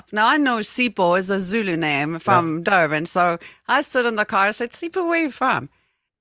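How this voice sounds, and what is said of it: South African accent. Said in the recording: “you're South Africa. I said, yeah, you heard my accent.”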